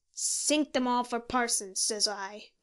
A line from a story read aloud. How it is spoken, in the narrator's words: growled Moody